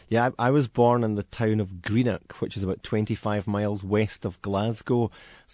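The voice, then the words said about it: Scottish accent. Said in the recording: “I love the accent. That's real. You are a real Scotsman.”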